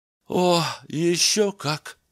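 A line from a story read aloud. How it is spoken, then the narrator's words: Sad. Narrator (Russian): печально сказал Денке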